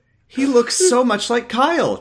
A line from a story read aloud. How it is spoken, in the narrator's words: Jessie exclaimed